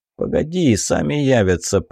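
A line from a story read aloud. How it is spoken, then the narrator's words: Muttering. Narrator (Russian): пробормотал Билый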